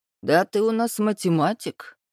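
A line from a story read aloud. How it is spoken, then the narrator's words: Snort. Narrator (Russian): фыркнул я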